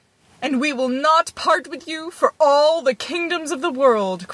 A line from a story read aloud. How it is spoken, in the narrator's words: cried his parents